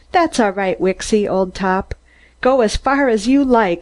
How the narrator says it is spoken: I cried

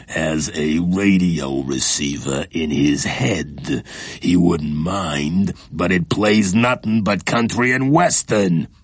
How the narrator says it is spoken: said another slowly

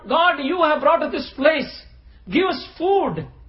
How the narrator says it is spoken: he cried to Lord

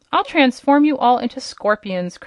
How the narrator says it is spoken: cried the king angrily

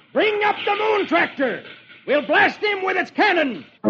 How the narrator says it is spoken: One of the pirates shouts

